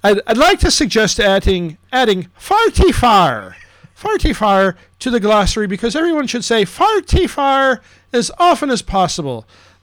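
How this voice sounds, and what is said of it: Bad put-on Irish accent. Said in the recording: “I'm going to have to do this in my Brendan... My Brendan Brogue... it's this bad Irish accent that I'm doing”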